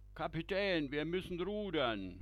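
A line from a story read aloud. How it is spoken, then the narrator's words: Grandmother calling out. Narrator (German): ruft Matrose Oma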